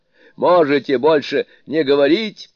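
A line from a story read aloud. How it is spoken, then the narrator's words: Angry exclamation. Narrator (Russian): гневно воскликнул Суню-кун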